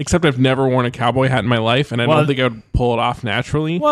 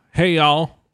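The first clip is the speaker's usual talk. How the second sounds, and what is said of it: Put-on Texan accent. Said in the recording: “Talking a Texan accent. ... Texan. ... Sure you weren't born in Dallas, man? ... I could have sworn you're from Houston. ... Or even Amarillo.”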